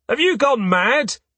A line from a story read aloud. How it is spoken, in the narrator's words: an Unteroffizier yells